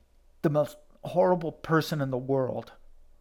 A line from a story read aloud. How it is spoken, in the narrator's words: said, her voice shaking